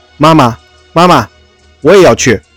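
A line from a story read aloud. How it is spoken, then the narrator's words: Child clamoring. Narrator (Chinese): 小白兔嚷起来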